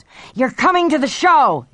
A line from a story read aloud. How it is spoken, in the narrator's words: he yelled